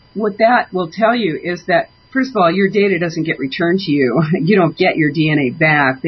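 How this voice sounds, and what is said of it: Congested voice with a cold. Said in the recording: “I'm sorry, I have a cold.”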